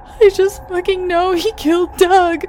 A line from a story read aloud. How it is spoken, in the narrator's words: I wailed to Patrick